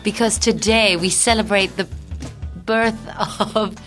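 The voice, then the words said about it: Put-on British accent. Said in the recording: “Why are we speaking in a British accent today?”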